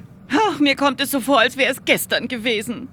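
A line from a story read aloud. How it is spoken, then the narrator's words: Whimpering. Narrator (German): wimmerte Mathilda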